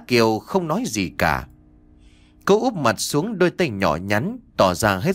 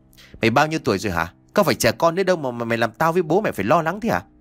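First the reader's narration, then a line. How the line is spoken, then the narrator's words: Angry scolding shout. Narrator (Vietnamese): anh đã tức giận rồi quát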